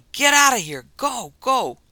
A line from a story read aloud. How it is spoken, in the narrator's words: was yelling